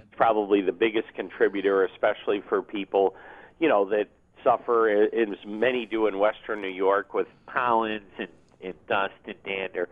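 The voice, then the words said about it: Buffalo accent. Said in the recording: “That was a Buffalo accent. That wasn't a plugged nose accent.”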